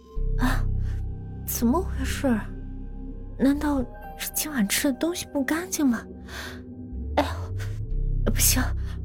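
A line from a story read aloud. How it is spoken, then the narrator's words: Pained mumbling. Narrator (Chinese): 他捂着肚子嘟囔着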